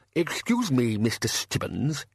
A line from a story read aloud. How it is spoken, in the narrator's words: he quavered